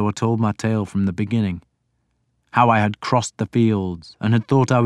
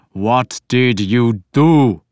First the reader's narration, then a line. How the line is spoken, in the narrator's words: Ubba snarled